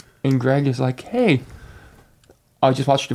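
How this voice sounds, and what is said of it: Usual voice. Nothing is said of it.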